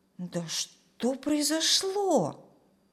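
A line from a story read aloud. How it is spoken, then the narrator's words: Bewildered question. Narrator (Russian): Растерянно спросил Женя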